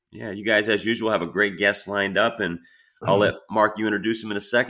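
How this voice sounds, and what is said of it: Strained, worn-out voice. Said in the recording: “apologize for my voice ... I'm coached out with my voice”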